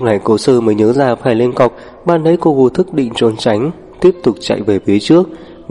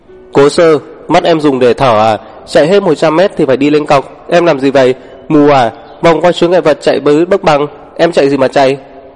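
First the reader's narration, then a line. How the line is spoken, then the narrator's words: Angry drill-instructor shout. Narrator (Vietnamese): Lục Bắc Thần giận dữ, quát như một người huấn luyện thú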